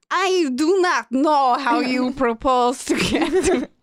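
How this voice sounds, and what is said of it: Bad put-on Italian accent. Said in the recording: “they know I'm so terrible at them ... it sounded like this ... It was embarrassing. They told me to do an Italian accent.”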